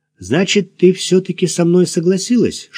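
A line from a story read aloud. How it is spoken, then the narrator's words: Whispered. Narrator (Russian): шепнул Максим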